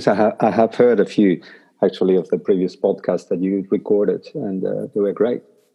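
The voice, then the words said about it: Argentinian accent. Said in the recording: “as you can possibly pick by my accent, I'm not a New Zealander... I'm Argentinian”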